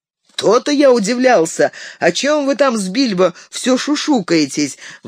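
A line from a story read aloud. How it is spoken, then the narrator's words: Exclamation. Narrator (Russian): воскликнул Мерри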